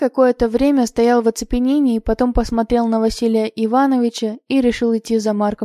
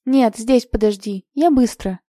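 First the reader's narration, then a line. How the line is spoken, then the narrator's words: Stern. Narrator (Russian): строго сказал Марк Петрович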